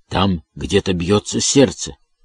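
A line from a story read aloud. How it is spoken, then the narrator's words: Whispered. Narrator (Russian): Финкель, прошептал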